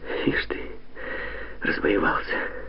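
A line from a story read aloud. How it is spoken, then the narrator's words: Soft laugh. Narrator (Russian): Негромко засмеялась Катя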